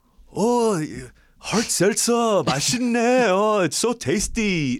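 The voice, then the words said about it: Unconvincing put-on Korean accent. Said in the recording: “how about your like Korean accent? ... You definitely sound like somebody who's not Korean doing a Korean accent. ... I'm better at the K-Town accent.”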